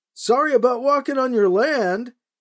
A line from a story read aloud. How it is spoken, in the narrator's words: he shouted